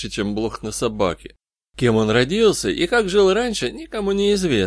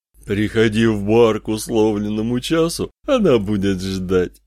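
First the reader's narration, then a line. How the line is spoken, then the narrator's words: Satan speaking, diabolical laughter. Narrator (Russian): сказал сатана, дьявольски расхохотался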